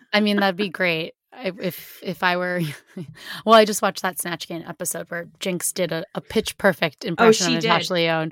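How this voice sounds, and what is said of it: Raspy, strained voice. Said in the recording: “my increasingly raspy voice ... I've hit my talking limit at this point ... You're getting close to Natasha Lyonne here. Not really, though.”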